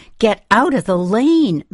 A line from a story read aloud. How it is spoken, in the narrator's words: my father screamed